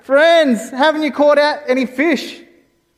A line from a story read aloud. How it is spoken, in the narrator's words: some random guy out on the beach yelling out